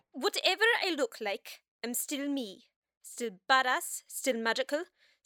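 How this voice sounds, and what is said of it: Irish accent. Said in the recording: “still Irish. Thank God you didn't mess up my accent.”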